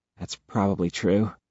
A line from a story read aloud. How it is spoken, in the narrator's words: she mutters